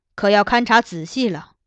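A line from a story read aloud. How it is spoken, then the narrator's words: Sighing addition. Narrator (Chinese): 金上道，叹了叹气，他又补充道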